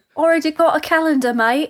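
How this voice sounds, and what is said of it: Exaggerated, unconvincing put-on London accent. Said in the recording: “That was my London accent. ... What the hell was that? ... Oh, I went too far. Yeah. I went too far south.”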